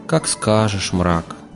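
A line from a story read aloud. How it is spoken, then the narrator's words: Dejected voice. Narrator (Russian): ответил Олег упавшим голосом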